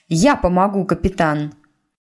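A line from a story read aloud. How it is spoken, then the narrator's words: Resolute announcement. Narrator (Russian): Тиффани не менее решительным голосом объявила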